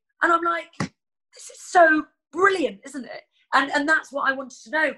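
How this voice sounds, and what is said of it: Usual voice. Nothing is said of it.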